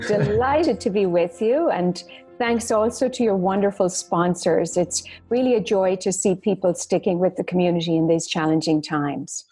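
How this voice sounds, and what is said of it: Irish accent. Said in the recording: “that Irish accent might have been a surprise to a few folks here... she is Irish and very proud of it”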